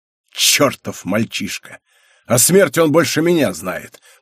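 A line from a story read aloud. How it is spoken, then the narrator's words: Through gritted teeth. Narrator (Russian): процедил Генрих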